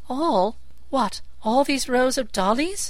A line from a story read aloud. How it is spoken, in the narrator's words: she gasped